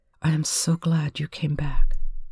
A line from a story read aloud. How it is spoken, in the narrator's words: he breathed at her ear